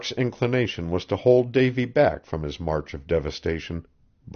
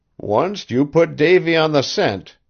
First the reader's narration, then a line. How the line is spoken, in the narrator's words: he whimpered